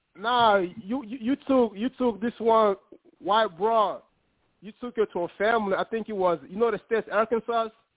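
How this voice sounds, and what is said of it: Strong, hard-to-understand accent. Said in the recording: “half of the shit, I couldn't tell what the fuck you was saying. ... I got an accent, man. Sometimes it's hard.”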